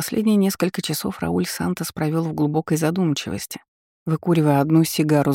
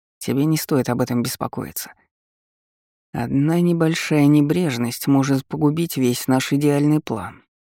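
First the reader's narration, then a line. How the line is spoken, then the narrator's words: Displeased voice. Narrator (Russian): недовольным голосом произнес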